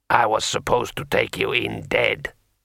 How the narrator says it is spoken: muttered Kaisadra sullenly

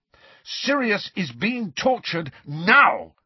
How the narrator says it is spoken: shouted Harry

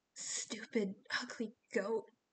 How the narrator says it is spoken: he muttered

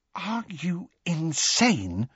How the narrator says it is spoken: said Hermione in a hushed voice

